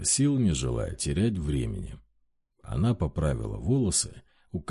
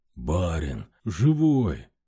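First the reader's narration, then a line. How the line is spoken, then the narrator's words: Exclaimed. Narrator (Russian): воскликнул он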